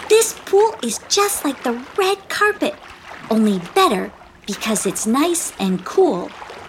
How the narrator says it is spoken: exclaimed Teeza

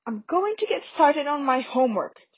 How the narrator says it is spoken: said Ron angrily

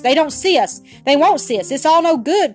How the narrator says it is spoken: cried Bobby

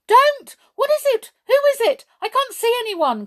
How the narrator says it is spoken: cried the frightened boy

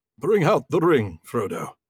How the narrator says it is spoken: said Gandalf solemnly

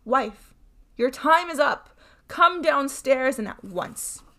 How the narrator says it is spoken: Bluebeard shouted up to her

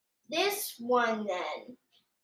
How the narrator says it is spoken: she said

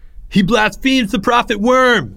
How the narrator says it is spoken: screamed one of the temple slaves, a young pugnacious worshiper by the name of Jake

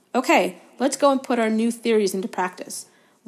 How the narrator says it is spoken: Wood shouted

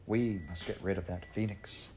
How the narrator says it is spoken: the children said in sad whispers to each other

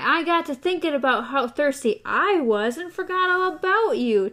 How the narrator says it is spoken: TikTok cried

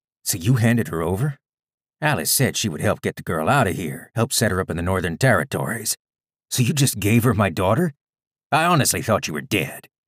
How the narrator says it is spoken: he said

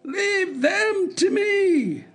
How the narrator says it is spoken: screamed Hop Frog, his shrill voice making itself easily heard through all the din

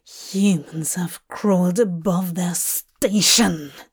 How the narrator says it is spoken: Dream spat

